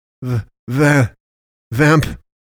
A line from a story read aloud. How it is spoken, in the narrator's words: he stammers, body shivering, adrenaline thinning his blood